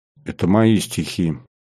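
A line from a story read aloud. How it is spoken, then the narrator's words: Quiet. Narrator (Russian): тихо произнес Кариков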